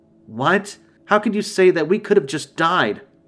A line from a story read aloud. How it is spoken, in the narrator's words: June exclaimed